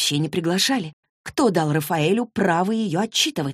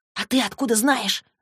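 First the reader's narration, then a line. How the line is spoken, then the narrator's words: Whisper. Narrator (Russian): зашептала Клэри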